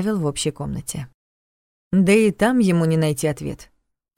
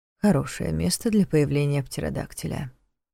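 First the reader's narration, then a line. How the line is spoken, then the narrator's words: Mutter. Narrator (Russian): пробормотал Неф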